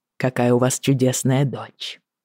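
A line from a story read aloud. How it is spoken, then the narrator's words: Smiling mutter. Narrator (Russian): с легкой улыбкой пробормотал он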